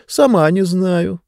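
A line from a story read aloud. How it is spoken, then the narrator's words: Sighing. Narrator (Russian): вздохнула книга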